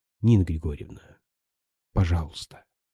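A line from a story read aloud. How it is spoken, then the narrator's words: Whispered. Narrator (Russian): прошептал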